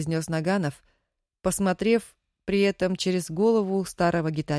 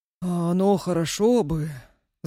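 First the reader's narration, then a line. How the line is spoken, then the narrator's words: Sighing. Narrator (Russian): вздохнул дядя Петя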